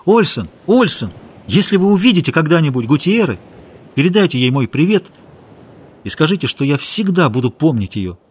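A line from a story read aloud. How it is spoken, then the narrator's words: Sudden shout. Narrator (Russian): он вдруг крикнул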